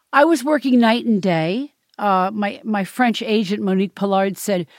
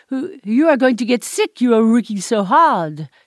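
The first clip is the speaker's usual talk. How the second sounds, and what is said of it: Bad imitation French accent. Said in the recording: “She was French. So that was a bad accent.”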